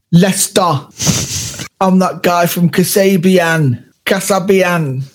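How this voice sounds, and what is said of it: Imitated Leicester accent. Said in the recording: “Leicester accent ... It's like Derby meets Brummie meets London, isn't it? ... That's exactly it.”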